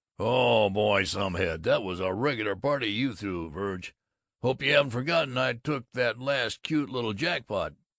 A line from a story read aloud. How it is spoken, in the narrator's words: Babbitt bellowed